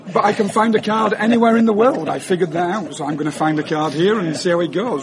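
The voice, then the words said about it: Alabama Southern US accent. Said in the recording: “I'm from Alabama, as you know. You can tell by your accent.”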